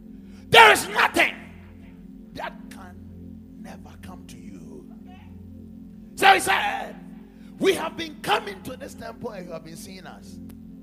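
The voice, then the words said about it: Strained, hoarse preaching voice. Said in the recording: “I'm losing my voice.”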